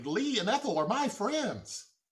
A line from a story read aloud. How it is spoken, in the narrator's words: Bubba quickly exclaimed